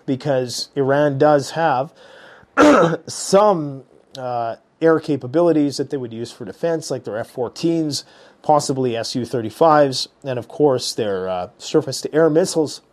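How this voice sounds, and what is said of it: Hoarse, failing voice. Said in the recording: “I'm really losing my voice. These kids brought home a nasty one”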